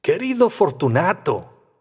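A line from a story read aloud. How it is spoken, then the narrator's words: Jovial tone. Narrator (Spanish): le dije en tono jovial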